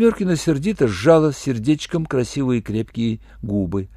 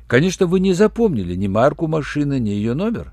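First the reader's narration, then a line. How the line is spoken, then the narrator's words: Dry question. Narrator (Russian): сухо спросил Руальд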